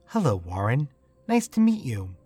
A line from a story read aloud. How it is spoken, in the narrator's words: She smiled warmly and said